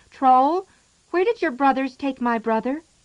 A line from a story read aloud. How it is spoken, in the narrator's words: She cried out